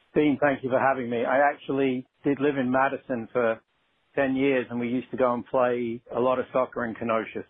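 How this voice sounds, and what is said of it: Non-local foreign accent. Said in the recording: “recognized by his accent. He's not from either one of those places”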